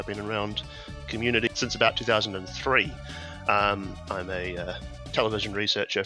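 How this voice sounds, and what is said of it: New Zealand accent. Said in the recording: “I'm from New Zealand, in case the accent hasn't clued you to that one already.”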